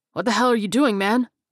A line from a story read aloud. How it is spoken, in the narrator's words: Freeman cried